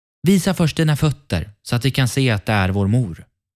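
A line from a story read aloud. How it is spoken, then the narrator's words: Young goats calling out. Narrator (Swedish): Killingarna ropade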